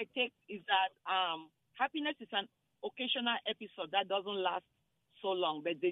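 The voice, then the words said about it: Slight foreign accent. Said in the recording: “I hear a little accent... Yeah, I'm from Cameroon.”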